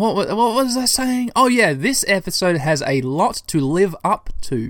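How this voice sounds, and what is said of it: Usual voice. Nothing is said of it.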